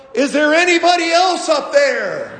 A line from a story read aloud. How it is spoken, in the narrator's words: he yelled